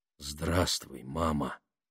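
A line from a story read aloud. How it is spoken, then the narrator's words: Quiet. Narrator (Russian): тихо проговорил Леон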